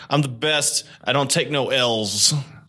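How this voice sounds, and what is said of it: Imitates another person's voice. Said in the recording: “good DJ Colin impression ... That's pretty good. I think you got the accent.”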